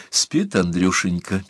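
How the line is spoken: Sad. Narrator (Russian): печально сказала Аглая

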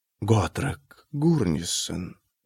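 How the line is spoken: Distant whisper. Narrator (Russian): донесся до Арека шепот Келмайна

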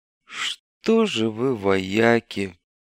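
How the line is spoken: Through gritted teeth, colonel. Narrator (Russian): процедил сквозь зубы полковник Дорогин

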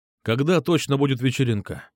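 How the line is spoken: Plain. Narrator (Russian): спросил Петр

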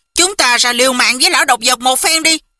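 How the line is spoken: Angry. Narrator (Vietnamese): Quách Tĩnh tức giận nói

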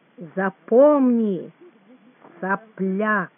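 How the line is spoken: Slow, with pauses. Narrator (Russian): стал выговаривать слова медленно, через паузы

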